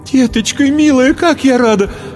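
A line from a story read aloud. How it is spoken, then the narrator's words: Tearful joyful exclamation. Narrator (Russian): Воскликнула, всхлипнула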